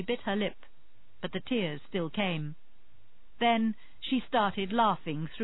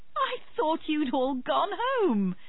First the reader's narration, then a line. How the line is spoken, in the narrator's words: Tennyson laughed